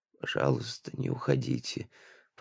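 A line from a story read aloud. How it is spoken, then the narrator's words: Shivering whisper. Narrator (Russian): прошептала она, стуча зубами от озноба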